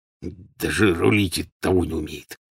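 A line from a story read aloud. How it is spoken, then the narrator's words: Quiet angry muttering. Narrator (Russian): негромко пробормотал, и усы его гневно встопорщились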